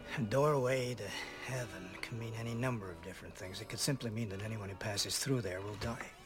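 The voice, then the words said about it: Heavy American accent. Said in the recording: “Heavy American accent”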